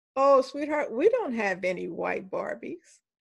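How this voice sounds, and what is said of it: Sweet, extra-nice voice. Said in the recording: “in my nicest voice,”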